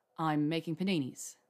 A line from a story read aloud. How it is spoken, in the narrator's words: he said